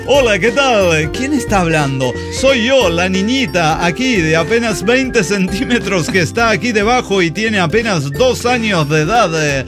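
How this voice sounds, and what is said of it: Radio announcer voice. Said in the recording (Spanish): “Así con voz de locutora.”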